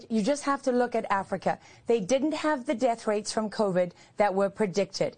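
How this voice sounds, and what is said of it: Slightly posh accent. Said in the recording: “Do I hear a bit of a posh accent? ... come over from the mother country”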